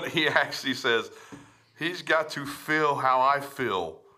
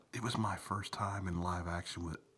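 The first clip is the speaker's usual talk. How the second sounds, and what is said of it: Sultry, seductive reading voice. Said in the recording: “in a sexy voice”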